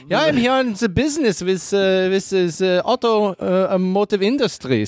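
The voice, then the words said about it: Put-on German accent. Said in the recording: “Speak with a German accent.”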